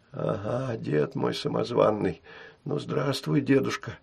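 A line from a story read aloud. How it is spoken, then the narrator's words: Whisper. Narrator (Russian): прошептала Штопочка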